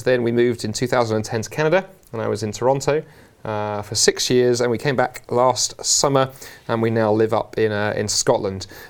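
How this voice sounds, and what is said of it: London English accent. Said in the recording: “listeners will tell by the accent, I'm a Londoner, actually born and raised across the river in South London”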